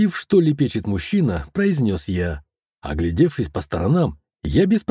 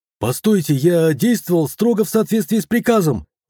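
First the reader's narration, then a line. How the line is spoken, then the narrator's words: Doctor yelling. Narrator (Russian): вопил врач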